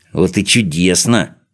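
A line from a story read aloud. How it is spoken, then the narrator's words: Gloating muttering. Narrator (Russian): со злорадной усмешкой бормотал он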